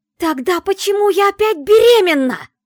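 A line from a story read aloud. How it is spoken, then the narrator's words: Yelling. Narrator (Russian): заорала я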